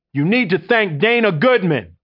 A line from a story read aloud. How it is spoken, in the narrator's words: the man yells out louder this time